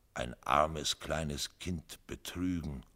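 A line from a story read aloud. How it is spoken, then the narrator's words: Incredulous murmur. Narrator (German): murmelte er, als könne er es nicht glauben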